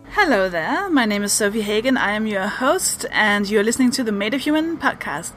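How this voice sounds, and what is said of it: Danish accent. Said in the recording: “I'm from Denmark. That's the weird accent.”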